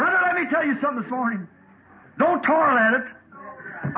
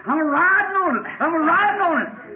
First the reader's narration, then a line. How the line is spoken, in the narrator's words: just a hollering and screaming, and said